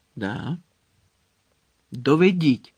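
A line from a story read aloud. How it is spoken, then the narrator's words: Commanding tone. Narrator (Ukrainian): звелів Редл тим самим командирським тоном, що й тоді, коли наказував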